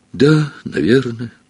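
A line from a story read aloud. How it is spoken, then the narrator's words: Sad. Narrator (Russian): грустно произнес круглолицый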